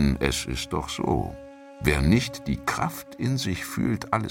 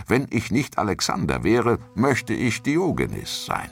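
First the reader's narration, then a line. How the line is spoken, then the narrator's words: Exclaiming. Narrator (German): rief aus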